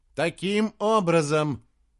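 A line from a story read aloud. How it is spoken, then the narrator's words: Loud, calming. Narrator (Russian): громко сказал Джошуа, успокаивая собравшихся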